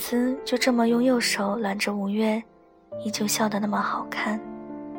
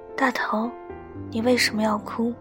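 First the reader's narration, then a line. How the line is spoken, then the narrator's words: Quiet question. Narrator (Chinese): 五月在我身后小声问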